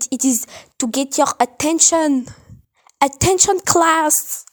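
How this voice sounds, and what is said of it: Put-on French accent. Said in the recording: “Don't mind my French accent.”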